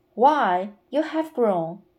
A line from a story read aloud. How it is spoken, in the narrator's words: exclaimed the woman, as if she were much surprised